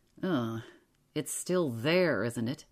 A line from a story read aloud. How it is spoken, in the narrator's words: he said in an ugly voice